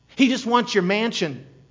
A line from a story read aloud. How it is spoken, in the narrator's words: they cried